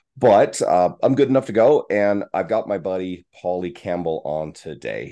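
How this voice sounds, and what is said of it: Sick, under-the-weather voice. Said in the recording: “You may hear it in my voice. I'm a little under the weather”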